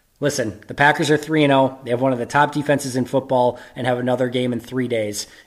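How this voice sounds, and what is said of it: Hoarse, strained voice. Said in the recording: “I'm losing my voice. I was at the game.”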